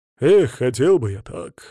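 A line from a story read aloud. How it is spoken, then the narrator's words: Dreamy sigh. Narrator (Russian): мечтательно вздохнул Третьяк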